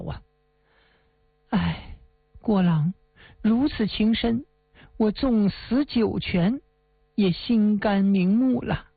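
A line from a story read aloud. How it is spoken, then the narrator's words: Young woman sighing. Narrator (Chinese): 姑娘听罢，叹口气说道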